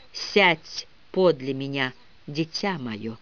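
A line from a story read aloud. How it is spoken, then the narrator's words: Very soft, tender, sad. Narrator (Russian): Очень мягким и ласковым голосом позвал печальный человек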